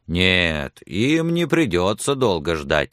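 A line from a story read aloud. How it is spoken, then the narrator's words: Calm. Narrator (Russian): спокойно отвечал Билли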